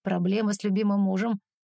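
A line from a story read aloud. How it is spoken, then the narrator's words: Mocking. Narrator (Russian): бросает насмешливо Стас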